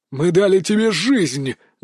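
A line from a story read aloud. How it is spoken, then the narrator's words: Angry growl, ghoul. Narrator (Russian): гневно зарычал первый упырь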